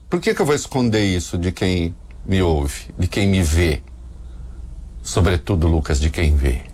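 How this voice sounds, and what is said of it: Brazilian caipira countryside accent. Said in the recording (Portuguese): “Reconheci pelo sotaque caipira.”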